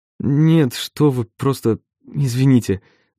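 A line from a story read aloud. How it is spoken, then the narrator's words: Stammering mutter. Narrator (Russian): запинаясь, пробормотал я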